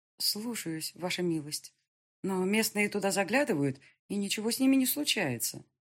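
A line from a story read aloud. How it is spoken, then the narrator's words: Nervous mumble. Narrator (Russian): Я поежилась и пробормотала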